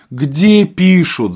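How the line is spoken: Shouting. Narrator (Russian): закричал секретарь

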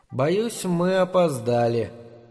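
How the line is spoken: Calm little creature. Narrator (Russian): говорит зверушка по своему обыкновению спокойно

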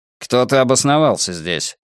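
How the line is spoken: Gruff mutter. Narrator (Russian): буркнул койот

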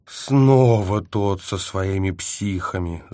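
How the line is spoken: Groan. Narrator (Russian): застонал я

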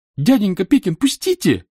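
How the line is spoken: Shameful puppyish squeal. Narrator (Russian): взвизгнул Митридат самым постыдным, щенячьим образом

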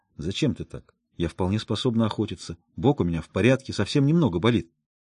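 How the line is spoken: Whispered. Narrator (Russian): прошептала

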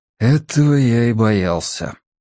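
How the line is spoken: Resigned sigh. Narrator (Russian): обреченно вздохнул Мэтью

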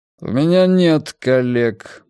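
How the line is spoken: Gloomy. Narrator (Russian): мрачно сказал Рокки

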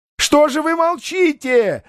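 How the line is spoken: Very loud yell. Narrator (Russian): заорал Бендер с такой силой, что на столе кинодеятеля звякнула телефонная трубка

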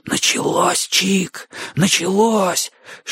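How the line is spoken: Whisper. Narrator (Russian): шепнул Бочо

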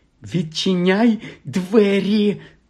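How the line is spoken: Hissing. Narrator (Ukrainian): засичала на Гаррі тітка Петунія

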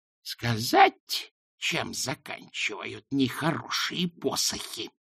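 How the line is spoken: Hissing. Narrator (Russian): прошипела она

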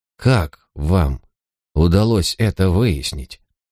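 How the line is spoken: Quiet question. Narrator (Russian): Гиббонс негромким голосом спросил

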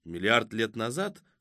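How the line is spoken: Skeptical snort. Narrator (Russian): хмыкнул Кузьма

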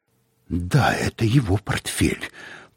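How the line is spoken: Muttering. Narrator (Russian): пробормотал он

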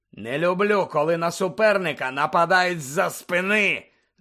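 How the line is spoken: Growled. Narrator (Ukrainian): Загарчав Муді

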